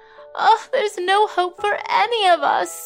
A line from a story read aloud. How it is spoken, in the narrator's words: wailed another woman who was clearly also suffering from the flu